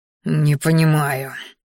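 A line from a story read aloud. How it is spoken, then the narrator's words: Hissed through teeth. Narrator (Russian): шипя сквозь зубы, произнес боевик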